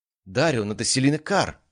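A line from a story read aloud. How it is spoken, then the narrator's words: Exclamation. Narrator (Russian): воскликнул Кайден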